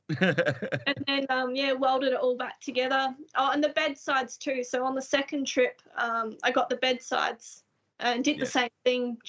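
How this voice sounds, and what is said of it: Slight English accent. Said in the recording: “a slight English inflection”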